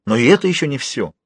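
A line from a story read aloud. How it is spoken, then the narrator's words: Irritated exclamation. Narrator (Russian): раздраженно воскликнул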